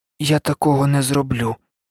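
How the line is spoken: Quiet reply. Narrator (Ukrainian): доволі тихо озвався Гаррі

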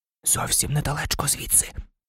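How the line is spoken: Excited whisper. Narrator (Ukrainian): збуджено прошепотів Шеймус

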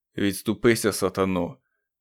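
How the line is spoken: Muttered to himself. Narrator (Ukrainian): пробурмотів він сам собі

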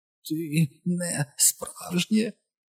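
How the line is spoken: Choked rasp. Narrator (Ukrainian): задавлено прохрипів Едді

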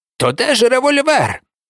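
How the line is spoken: Unusually excited shout. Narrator (Ukrainian): крикнув Калеб з незвичайним для нього збудженням

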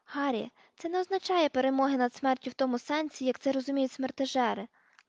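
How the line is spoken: Gentle explanation. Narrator (Ukrainian): лагідно пояснила Герміона

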